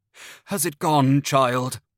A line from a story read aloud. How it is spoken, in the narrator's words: I gasped